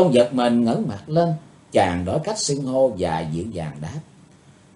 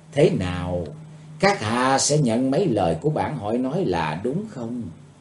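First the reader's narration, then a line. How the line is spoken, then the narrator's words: Eerie, soft female voice. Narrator (Vietnamese): bằng một giọng ma quái, cô ả khẽ thốt lên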